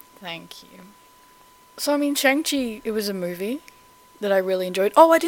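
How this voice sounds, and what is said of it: Usual voice. Nothing is said of it.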